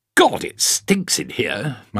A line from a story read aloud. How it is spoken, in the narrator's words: grumbled